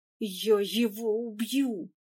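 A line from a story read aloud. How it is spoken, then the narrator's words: Hissing. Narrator (Russian): шипел Эдуард Петрович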